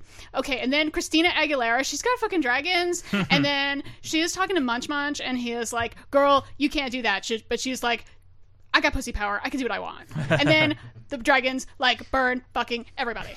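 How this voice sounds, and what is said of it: Flamboyant Valley Girl-style voice. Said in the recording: “ridiculously flamboyant hairdresser ... That was a terrible impression. That was more Valley Girl.”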